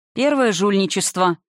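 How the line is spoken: Gloomy retort. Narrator (Russian): мрачно парировал Натаниэль

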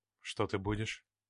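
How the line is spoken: Velvety male voice. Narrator (Russian): спросил он бархатным голосом

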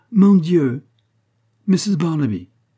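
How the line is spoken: Exclaimed. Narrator (French): s'écria-t-elle

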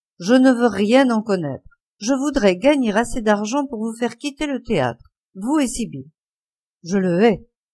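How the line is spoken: Young man murmuring. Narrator (French): murmura le jeune homme

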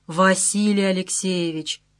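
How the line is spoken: Drawl. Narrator (Russian): протянул Мухолатов

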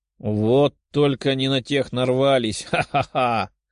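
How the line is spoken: Big man's pleased laugh. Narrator (Russian): С довольным выражением лица рассмеялся здоровяк

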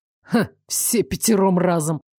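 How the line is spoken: Sarcastic snort. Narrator (Russian): с сарказмом хмыкнул Элмер

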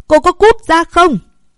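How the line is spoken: Fierce shout. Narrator (Vietnamese): Vũ Duy Trường hét lên một cách dữ tợn

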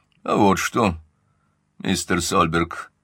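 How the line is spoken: Calm reply. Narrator (Russian): спокойно отвечал Каупервуд

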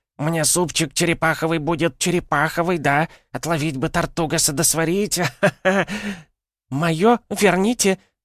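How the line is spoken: Shrieking. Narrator (Russian): визжала девица

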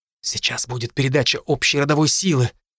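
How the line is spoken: Guests whispering nearby. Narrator (Russian): перешептывание гостей за соседними столиками

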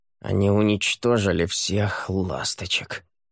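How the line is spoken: Grumbling. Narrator (Russian): ворчал Монти

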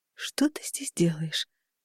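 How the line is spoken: Whisper. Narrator (Russian): прошептала я

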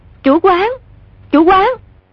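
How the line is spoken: Called out. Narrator (Vietnamese): có tiếng người đập cửa kêu lên

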